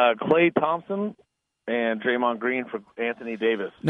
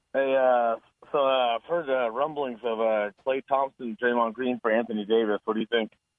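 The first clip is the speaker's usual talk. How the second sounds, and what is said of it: Speaking very fast. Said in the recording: “you said that fast.”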